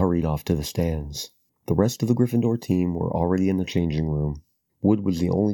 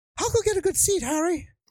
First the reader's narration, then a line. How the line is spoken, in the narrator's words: Colin called after him in a piping voice